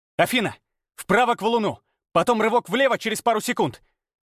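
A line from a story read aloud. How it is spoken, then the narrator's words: Forceful mental shout. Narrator (Russian): Мысленно крикнул, вкладывая в команду всю свою волю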